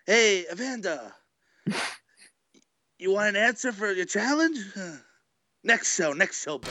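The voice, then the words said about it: Imitates another person's voice. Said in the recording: “do an impression of his promo”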